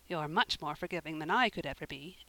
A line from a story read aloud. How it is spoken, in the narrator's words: Anne said, rather crossly